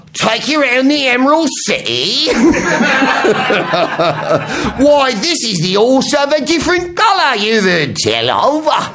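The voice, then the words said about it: Awful put-on Cockney accent. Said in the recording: “really penetratingly awful Cockney accent”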